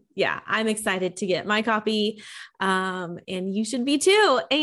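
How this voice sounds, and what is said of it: Usual voice. Nothing is said of it.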